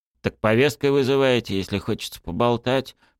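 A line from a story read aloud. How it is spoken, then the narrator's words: Fisherman grumbling. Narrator (Russian): проворчал рыбак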